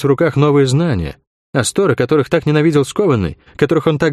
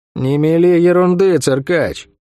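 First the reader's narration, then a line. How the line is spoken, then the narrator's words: Gloomy reply. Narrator (Russian): мрачно ответила Сойка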